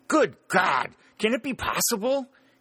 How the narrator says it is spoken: he exclaimed

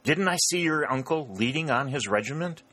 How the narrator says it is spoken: the colonel gasped to Dick

